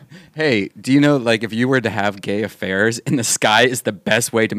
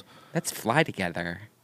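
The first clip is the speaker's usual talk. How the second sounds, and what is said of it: Stereotyped gay voice. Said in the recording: “the obvious gay voice”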